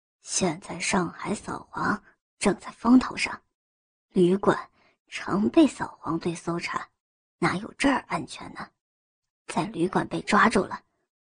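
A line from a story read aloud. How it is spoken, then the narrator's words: Mysterious low whisper. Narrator (Chinese): 他故作神秘的压低声音，对着他耳边悄悄说道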